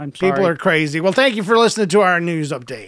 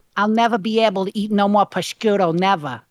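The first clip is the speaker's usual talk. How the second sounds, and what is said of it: Weak put-on Boston accent. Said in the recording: “probably not a good Boston accent ... for a female”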